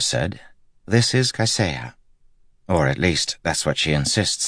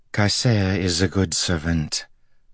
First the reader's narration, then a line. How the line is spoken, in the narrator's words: the woman said evenly